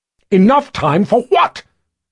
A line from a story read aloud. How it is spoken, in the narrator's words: Zed roared